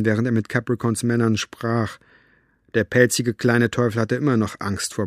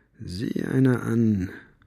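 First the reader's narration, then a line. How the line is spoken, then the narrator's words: Murmuring. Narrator (German): murmelte er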